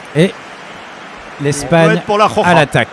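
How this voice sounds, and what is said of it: Put-on Spanish accent. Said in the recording (French): “Joli accent espagnol.”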